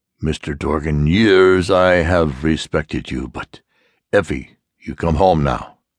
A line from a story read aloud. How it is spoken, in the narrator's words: said Kugler